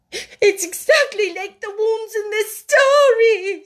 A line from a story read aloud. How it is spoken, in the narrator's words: she wailed